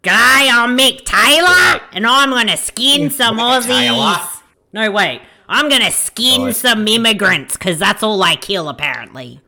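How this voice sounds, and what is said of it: Australian horror movie villain impression. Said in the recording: “Was that your Wolf Creek impression?”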